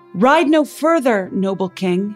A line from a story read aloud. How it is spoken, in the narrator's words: he shouted